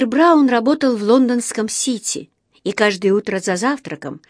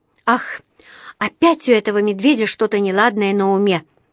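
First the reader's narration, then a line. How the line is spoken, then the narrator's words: Sighing. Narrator (Russian): вздохнула она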